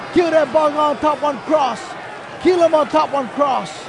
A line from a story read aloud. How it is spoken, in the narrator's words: They all yell